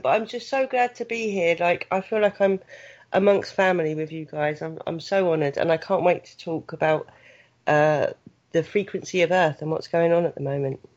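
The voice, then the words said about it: Southern English accent. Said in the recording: “She came along with an accent. ... And a beautiful voice. ... I haven't got the normal English accent that you guys are used to ... I'm not quite that well-spoken, so I've got a southern tinge to my English accent.”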